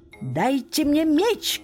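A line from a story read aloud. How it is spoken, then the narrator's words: Shout. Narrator (Russian): крикнул он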